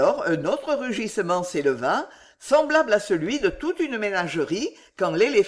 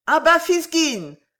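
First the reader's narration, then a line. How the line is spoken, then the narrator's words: Crowd shouting angrily. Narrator (French): vociféra la foule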